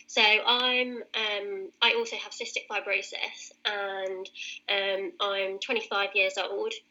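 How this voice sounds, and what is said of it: British accent. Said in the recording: “As you can probably tell from my accent, I'm British.”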